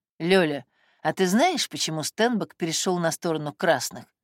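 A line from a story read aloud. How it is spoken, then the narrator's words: Quiet hushed question. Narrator (Russian): спросил он тихо, чтобы дети не услышали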